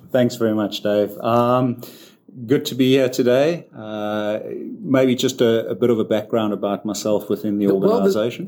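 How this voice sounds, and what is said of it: South African accent. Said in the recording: “there's an accent there ... It's very much a South African accent.”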